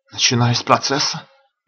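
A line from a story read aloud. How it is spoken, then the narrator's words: Frightened question. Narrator (Russian): испуганно спросил Ильев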